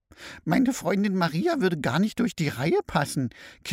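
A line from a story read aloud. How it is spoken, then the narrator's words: Giggling mother-in-law. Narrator (German): kichert die Schwiegermutter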